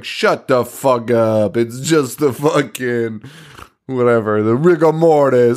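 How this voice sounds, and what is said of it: Weird put-on character accent. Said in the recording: “I'm doing like that weird accent”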